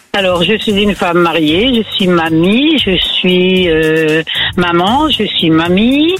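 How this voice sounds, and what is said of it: Northern French (ch'ti) accent. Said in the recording (French): “Elle a accent du nord ... je suis une pure ch'ti ... Ça s'entendait un peu”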